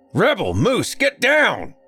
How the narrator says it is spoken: came a deep bellow

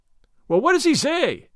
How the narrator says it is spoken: cried Gordon, in great excitement

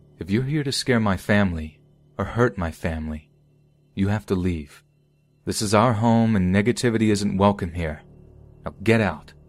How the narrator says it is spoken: I said out loud in a firm voice

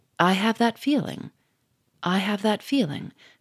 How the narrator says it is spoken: said Gouchard quietly

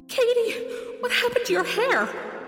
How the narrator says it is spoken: Mom gasping

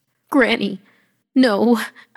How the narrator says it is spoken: I croaked

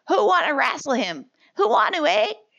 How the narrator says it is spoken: two boys cried

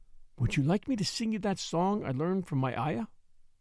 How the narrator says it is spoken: Mary whispered to Colin

